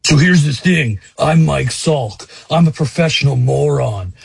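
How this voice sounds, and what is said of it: Impression of Mike Salk. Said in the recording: “my favorite Salk impression”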